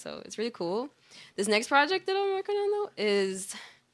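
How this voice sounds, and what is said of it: Excited, high-pitched voice. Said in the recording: “why did my voice get so high? I always do that. ... Excitement, that man, excitement.”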